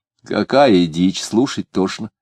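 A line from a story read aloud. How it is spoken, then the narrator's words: Very calm. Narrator (Russian): сказал Варвара очень спокойно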